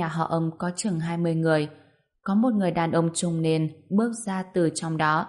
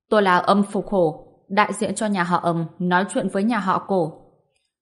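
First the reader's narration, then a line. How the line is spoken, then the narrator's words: Raised voice. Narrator (Vietnamese): Ông ta cao giọng nói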